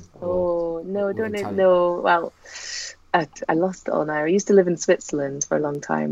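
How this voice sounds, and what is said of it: Scottish accent. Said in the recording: “this accent... obviously it's Scottish”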